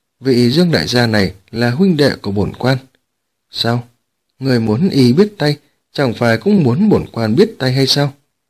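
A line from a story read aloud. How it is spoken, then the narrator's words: Cold. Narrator (Vietnamese): Mã Độ lạnh lùng nói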